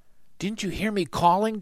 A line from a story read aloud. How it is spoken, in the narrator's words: Jack whispered